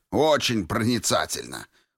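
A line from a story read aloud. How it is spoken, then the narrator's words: Snorting. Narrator (Russian): фыркнул Троцкий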